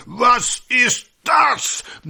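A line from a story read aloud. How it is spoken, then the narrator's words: Thundering furious voice. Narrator (German): Einer der Direktoren tobt durch die Zimmer, donnernd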